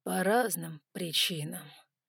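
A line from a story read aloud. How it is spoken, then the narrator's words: Drawled, then paused. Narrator (Russian): протянул я и ненадолго замолчал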